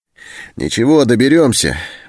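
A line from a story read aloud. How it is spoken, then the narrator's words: Cheerful. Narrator (Russian): бодро сказал Антон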